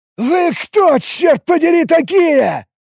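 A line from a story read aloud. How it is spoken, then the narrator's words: Shouting. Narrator (Russian): выкрикнул Алекс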